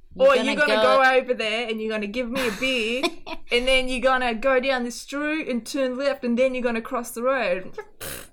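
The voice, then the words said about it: Australian accent, blunt commanding tone. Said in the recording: “if someone said that in the Australian accent”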